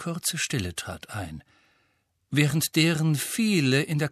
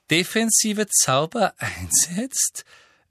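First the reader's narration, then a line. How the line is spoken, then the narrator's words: Repeating with short laugh. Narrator (German): wiederholte Professor Umbridge mit einem kurzen Lachen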